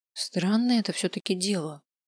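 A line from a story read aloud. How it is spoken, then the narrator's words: Muttered. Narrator (Russian): пробормотал я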